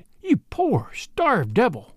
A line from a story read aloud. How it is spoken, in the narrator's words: she cried